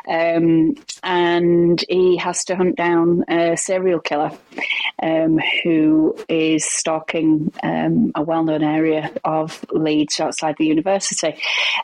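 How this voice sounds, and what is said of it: Leeds accent. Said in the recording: “I'm a Leeds girl, if you can't tell by the accent.”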